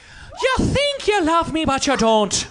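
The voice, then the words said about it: Put-on Irish accent. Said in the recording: “Give me an accent... Irish.”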